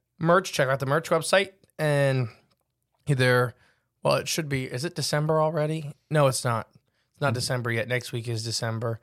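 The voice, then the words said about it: Slightly hoarse, strained voice. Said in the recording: “I've lost my voice a tiny bit”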